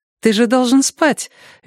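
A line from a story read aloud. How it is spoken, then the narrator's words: Cheerful remark. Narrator (Russian): весело заметила она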